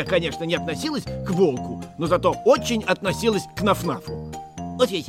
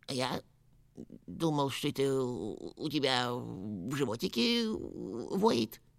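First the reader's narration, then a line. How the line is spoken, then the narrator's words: Uncertain. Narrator (Russian): неуверенно произнес Нуф-Нуф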